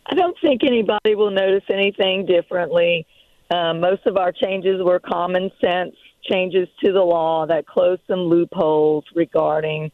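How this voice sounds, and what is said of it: Sick, slightly rough voice. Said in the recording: “my voice is a little bit under the weather.”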